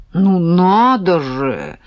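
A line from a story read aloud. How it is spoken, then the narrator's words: Admiring drawl, man. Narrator (Russian): восхищенно протянул мужик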